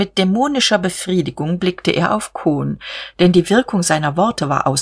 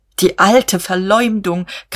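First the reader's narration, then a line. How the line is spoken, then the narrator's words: Shrieking. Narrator (German): kreischte er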